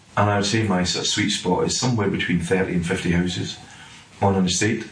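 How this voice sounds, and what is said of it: Scottish accent. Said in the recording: “You'll gather from my accent, I'm not sort of from Englandshire. I'm from up in Scotland.”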